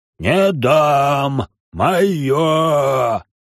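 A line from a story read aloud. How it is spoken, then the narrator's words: Roar. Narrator (Russian): взревел Дартун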